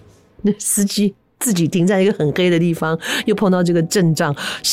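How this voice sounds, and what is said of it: Usual voice. Nothing is said of it.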